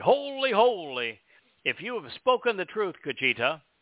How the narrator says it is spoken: cried

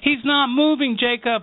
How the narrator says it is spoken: he shouted

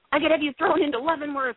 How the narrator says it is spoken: the general yelled

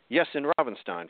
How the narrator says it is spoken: Franz answered

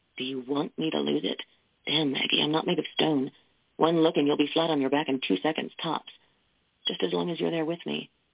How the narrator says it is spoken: In a taut, gruff whisper, he asked

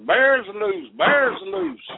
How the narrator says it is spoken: He's hollering top of his voice

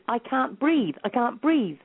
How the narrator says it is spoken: he was shouting at the top of his voice

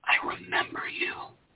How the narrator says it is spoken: whispered

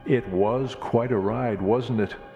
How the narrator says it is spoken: I chuckled

